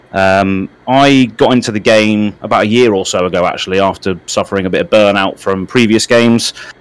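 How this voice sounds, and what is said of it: British accent. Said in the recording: “As you can tell from my accent, I am from the UK, United Kingdom”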